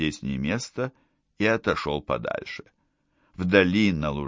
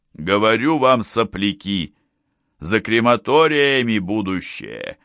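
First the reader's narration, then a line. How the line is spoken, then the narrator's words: Yelling. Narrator (Russian): вопил он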